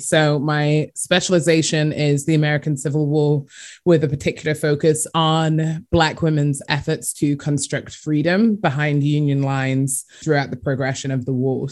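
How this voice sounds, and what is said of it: English accent. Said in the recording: “as you can probably tell by my accent, I'm from England”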